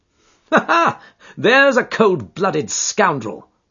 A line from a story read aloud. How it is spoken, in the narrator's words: said Holmes, laughing